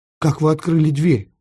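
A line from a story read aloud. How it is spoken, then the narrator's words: Frightened whisper. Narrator (Russian): испуганно прошептал Эраст Петрович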